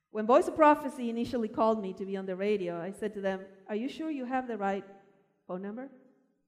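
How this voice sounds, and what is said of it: Speaker with a foreign accent. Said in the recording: “I'm very aware that I have an accent.”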